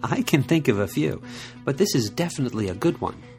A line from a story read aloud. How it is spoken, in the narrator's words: Yute said with a laugh